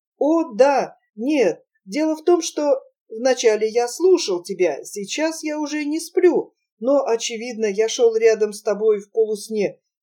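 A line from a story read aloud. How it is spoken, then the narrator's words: Stammering mumble. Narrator (Russian): запинаясь, пробормотал Якоб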